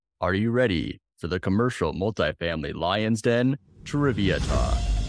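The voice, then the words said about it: Announcer-style radio voice. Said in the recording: “With that voice, I'm ready... Doesn't he have a great radio voice?... when he started off with that voice... like I'm on TV.”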